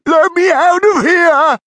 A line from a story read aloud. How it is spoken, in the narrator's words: cried Stefan, trying to squeeze through the door